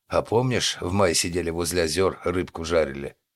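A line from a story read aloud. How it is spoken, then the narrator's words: Unpleasant bass question. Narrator (Russian): неприятным басом спросил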